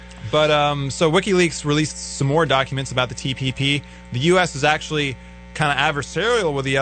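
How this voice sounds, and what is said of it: Usual voice. Nothing is said of it.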